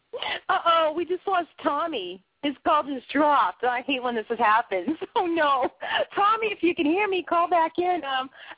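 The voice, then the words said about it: Boston accent. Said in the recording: “I talk funny. I got a Boston accent”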